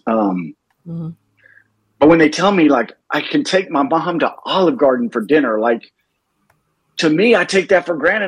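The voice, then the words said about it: Choked-up, emotional voice. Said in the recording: “sorry, this, I get choked up when I talk about this.”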